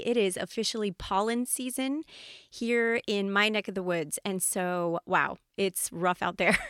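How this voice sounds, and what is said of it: Slightly scratchy voice. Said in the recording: “my voice is a little scratchy ... if it's a little bit scratchier than usual, it's because pollen is in the air”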